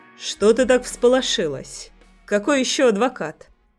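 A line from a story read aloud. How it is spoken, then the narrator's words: Calm question. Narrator (Russian): Спокойно спрашивает Андрей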